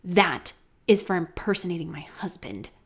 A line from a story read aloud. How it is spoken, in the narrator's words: she hissed